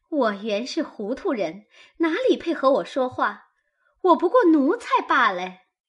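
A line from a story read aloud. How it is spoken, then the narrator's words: Sneering. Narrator (Chinese): 晴雯冷笑道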